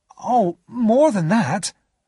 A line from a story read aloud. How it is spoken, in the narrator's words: I exclaimed